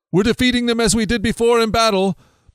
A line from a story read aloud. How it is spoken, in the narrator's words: they shouted